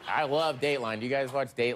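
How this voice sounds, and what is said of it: Imitates another person's voice. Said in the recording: “My impression of Bill Hader as Keith Morrison”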